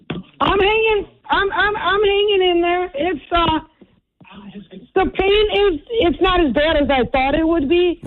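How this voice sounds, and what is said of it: Hoarse, partly lost voice. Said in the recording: “You sound like you lost your voice a little bit”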